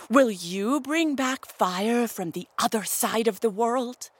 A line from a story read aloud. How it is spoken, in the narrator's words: Buzzard snapped